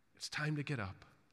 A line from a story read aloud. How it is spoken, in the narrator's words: speaks tenderly, saying to the child